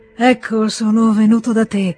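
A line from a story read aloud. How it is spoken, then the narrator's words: Muffled hollow voice. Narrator (Italian): disse Nikolai con voce sorda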